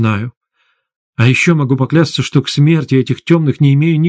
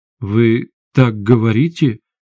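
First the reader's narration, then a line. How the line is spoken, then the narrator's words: Uncertain. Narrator (Russian): неуверенно произнесла Светлана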